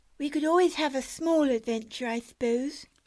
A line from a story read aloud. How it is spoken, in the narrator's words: sighed Anne despairingly